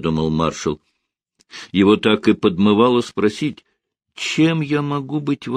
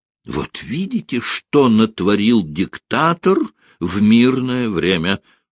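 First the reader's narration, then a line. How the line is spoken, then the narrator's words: Exclaimed. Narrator (Russian): воскликнул Пономарев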